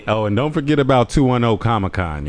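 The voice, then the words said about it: Smooth sports announcer voice. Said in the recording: “That sports announcer voice right there with 247... You like that voice?... that smooth”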